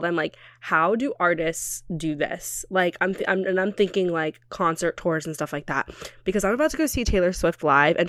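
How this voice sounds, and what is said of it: Deeper than usual, recovering-cold voice. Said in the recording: “My voice is a little bit deeper than normal right now because I'm getting over a cold.”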